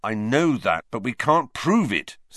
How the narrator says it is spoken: said Wood bitterly

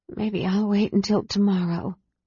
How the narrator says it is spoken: she mumbled

